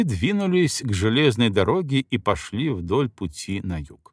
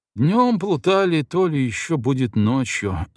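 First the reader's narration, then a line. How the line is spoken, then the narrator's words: Ominous, then a sigh. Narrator (Russian): зловеще произнес Селюков и вздохнул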